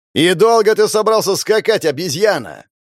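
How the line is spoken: Yelling. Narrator (Russian): орал псарь

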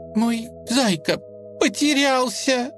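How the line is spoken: Child sobbing. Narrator (Russian): прорыдал малыш

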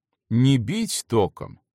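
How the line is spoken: Explained in lecturing tone. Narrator (Russian): менторским тоном пояснил вслед врач

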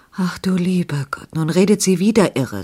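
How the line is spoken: Sigh. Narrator (German): seufzte Frau Margit

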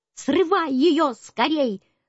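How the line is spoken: Parrot shouting. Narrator (Russian): закричал попугай

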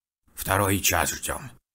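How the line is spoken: Old woman snapping. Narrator (Russian): огрызнулась вторая старуха

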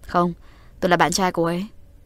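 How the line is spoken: Smiling. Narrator (Vietnamese): Uông Nhất Sơn mỉm cười

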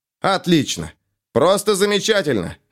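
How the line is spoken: Shouting out. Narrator (Russian): выкрикнул он

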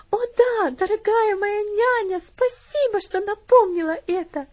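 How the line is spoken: Tearful girl's exclamation. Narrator (Russian): воскликнула девочка, улыбаясь сквозь слезы

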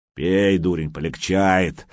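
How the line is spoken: Barked. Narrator (Russian): рявкнул мастер

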